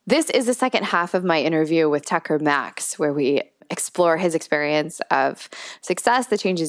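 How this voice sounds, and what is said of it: Voice sounds unwell, sick. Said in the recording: “Sorry about my voice. I am fighting a cold.”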